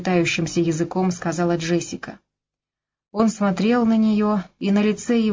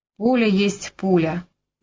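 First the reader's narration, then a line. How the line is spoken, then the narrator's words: Muttering. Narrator (Russian): пробурчал Слейд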